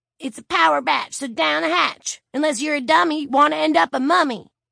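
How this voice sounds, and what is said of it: Maniacally perky ghetto patois. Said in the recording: “Tonight she had traded her normal southern accent for a maniacally perky ghetto patois.”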